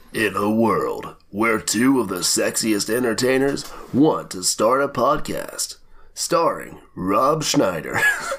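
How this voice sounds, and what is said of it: Deep epic movie-trailer voice. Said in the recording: “epic voice in my throat”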